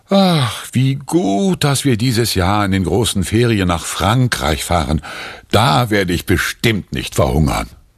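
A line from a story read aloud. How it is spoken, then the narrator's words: Father's relieved sigh. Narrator (German): Erleichtert seufzt Papa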